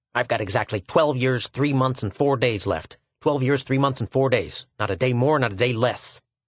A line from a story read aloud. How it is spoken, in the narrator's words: One small fellow with tight clothes and a determined expression said fiercely